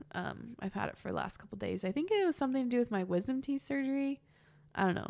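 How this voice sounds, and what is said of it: Stuffy, congested voice from cold. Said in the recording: “as you can probably hear in my voice, I have a bit of a cold ... I get really stuffy at the end of the day”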